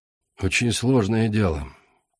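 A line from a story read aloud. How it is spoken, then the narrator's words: Quiet. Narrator (Russian): тихо сказал Алистан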